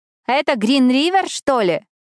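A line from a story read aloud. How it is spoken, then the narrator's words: Loud whisper in ear. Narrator (Russian): спросила Карли, громко шепча мне на ухо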